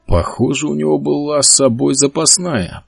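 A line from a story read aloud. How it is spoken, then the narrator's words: Mutter. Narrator (Russian): пробормотал Генри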